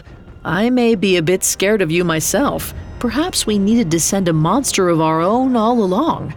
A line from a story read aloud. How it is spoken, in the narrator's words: Long Warrior chuckled